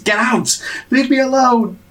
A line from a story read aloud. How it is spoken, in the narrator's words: Alden screams